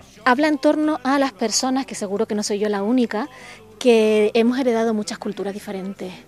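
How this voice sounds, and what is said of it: Canary Islands Spanish accent. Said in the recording (Spanish): “Yo soy canaria, como mi acento dice”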